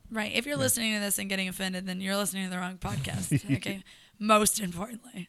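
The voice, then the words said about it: Raspy, hoarse voice. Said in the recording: “Do you hear my voice? ... the raspy”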